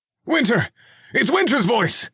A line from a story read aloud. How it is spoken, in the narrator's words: Reggie answered quickly